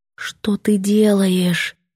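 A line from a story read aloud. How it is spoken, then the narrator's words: Strangled whisper. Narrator (Russian): мой задушенный шепот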